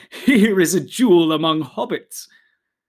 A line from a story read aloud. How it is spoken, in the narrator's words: They smiled at him and said, laughing